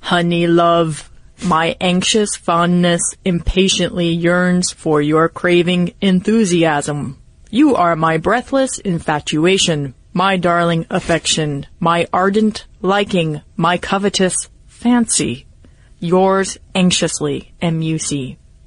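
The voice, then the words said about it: Robot voice. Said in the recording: “read it in a robot voice ... the robot accent is pretty easy”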